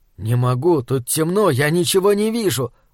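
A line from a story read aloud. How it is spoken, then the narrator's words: Grumbled reply. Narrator (Russian): буркнул я в ответ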